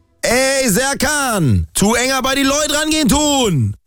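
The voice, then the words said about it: Hessian dialect. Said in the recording (German): “So sage ich es richtig auf Hessisch.”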